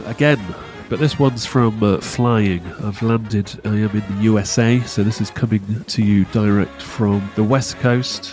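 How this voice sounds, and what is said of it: Congested voice with a cold. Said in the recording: “I've got a cold.”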